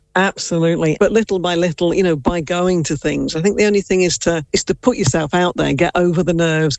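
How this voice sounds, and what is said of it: English accent. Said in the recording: “Based off your accent, I wonder, were you maybe born in England?”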